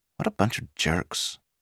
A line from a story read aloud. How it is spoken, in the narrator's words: she said quietly to Pete